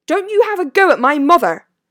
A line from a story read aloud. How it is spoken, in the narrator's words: snapped Seamus